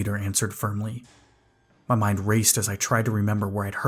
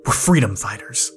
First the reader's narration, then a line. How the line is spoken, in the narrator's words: he shot back angrily